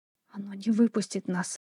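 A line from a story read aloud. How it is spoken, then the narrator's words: Whispered. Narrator (Russian): прошептала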